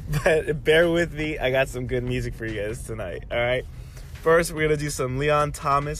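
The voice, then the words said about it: Sick, congested voice. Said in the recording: “I am a little under the weather, so my voice sounds a little fucked up and my nose is not good.”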